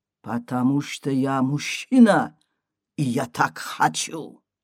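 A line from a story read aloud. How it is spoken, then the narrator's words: Quiet. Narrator (Russian): Рустам тихо говорит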